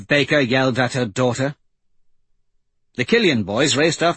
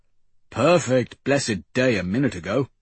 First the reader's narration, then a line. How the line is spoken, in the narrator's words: he grumbled